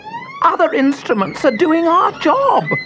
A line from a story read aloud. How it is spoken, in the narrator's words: screamed the first violin